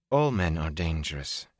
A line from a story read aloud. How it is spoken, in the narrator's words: she replied in a cool voice